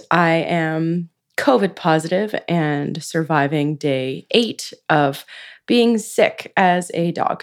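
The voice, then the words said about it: Raspy, lower-pitched sick voice. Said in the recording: “my voice is a little raspy, a little lower than usual”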